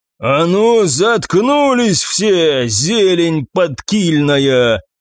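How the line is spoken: Roaring. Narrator (Russian): взревел голос Арни

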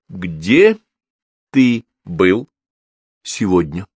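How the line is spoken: Clipped, emphatic. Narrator (Russian): не спросила, а отчеканила мама

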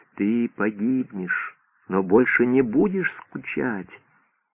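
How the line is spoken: Sinister whisper. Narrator (Russian): Невидимый демон нашептывал

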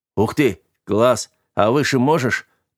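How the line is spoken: Yelling into ear. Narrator (Russian): орал пассажир ей в ухо

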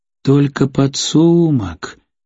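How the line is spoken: Drawn out, slightly disappointed. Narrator (Russian): чуть разочарованно протянул Ганимах

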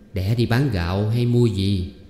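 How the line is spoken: Smiling question. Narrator (Vietnamese): Bà Thuyết mỉm cười hỏi

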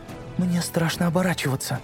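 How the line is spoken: Timid babbling. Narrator (Russian): пролепетала Сьюзан

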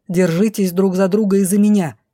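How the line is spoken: Barking. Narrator (Russian): рявкнула ледоколом

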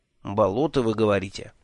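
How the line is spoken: Thoughtful question. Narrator (Russian): задумчиво переспросил

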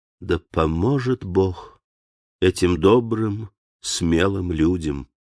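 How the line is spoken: Sighing, tender. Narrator (Russian): Она вздохнула, нежно промолвила

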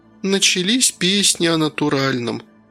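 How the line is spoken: Displeased sigh. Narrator (Russian): недовольно вздохнула Кира

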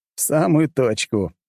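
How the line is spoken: Laughing. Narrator (Russian): засмеялся я

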